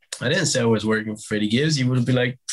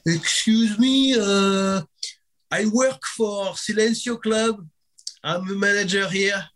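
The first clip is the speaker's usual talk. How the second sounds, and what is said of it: Strong put-on French accent. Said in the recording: “I take the strongest French accent I can.”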